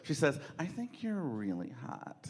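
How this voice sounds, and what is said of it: Imitates a white girl's voice. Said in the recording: “a very good white girl impression”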